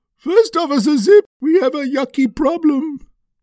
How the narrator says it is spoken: Hippo bellowed

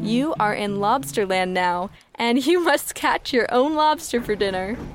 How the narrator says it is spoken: laughed Trisha

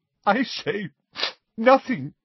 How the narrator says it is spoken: she choked

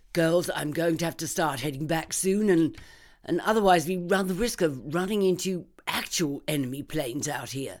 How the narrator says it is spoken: Mabel shouted

